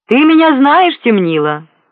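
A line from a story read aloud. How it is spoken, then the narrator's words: Loud. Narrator (Russian): громко сказал Ретев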